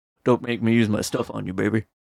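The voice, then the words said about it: Imitates another person's voice. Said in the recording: “that's me doing an impression of this guy doing an impression of Elvis”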